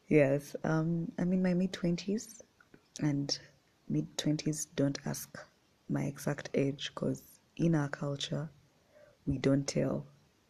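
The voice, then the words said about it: Ugandan English accent. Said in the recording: “I was born and raised in Uganda. That explains why. ... the accent is a little bit sloppy”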